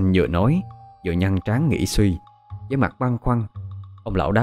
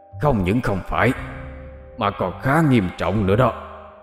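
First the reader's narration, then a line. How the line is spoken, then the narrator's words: Loud scolding, old man. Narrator (Vietnamese): Ông lão nhướng mắt, cao giọng khiển trách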